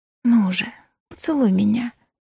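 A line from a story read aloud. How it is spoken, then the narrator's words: Whisper. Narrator (Russian): шепнула я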